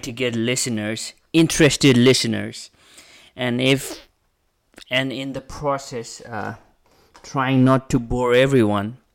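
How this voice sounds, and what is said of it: Foreign accent in English. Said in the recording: “my English is not that good ... I'm a foreigner and I do have an accent”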